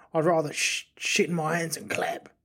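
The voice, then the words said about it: Attempted Australian accent, sounds Cockney. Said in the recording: “He doesn't have a Cockney accent, by the way. ... That's my Australian accent.”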